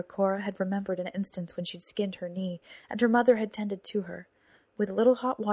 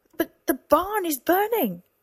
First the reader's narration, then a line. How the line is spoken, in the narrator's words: Cora shouted